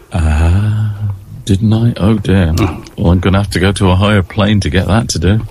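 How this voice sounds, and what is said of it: Deep, bassy male voice. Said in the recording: “your lovely deep voice”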